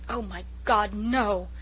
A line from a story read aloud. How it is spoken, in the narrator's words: exclaimed Walter passionately